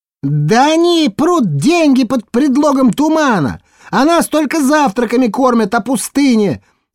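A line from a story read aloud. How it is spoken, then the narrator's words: Woman shouting. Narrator (Russian): крикнула какая-то дама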